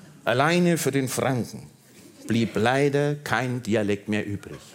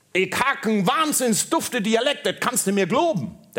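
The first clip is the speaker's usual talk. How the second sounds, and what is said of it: Put-on Berlin dialect. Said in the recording (German): “Der Berliner sagte”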